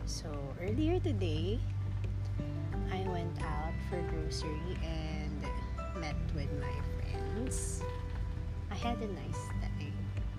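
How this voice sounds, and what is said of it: Congested, slightly odd-sounding voice. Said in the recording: “my voice is a bit weird because I think I'm having allergic rhinitis right now”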